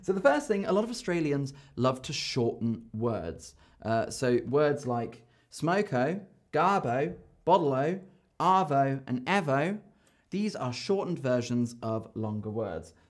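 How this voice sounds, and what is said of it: Australian accent. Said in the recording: “You get to hear more of my wonderful Australian accent”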